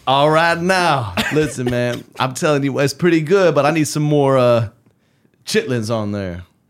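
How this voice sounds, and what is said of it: Travis Kelce impression. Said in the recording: “you do have a good Travis Kelce voice? ... it just allows me to talk in this accent”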